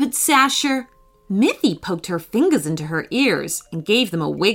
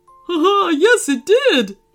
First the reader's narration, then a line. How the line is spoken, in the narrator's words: laughed Phoebe